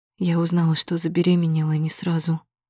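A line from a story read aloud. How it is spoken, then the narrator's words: Whisper. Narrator (Russian): начинает шептать Вика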